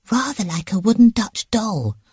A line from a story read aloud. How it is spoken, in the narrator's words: whispered Jane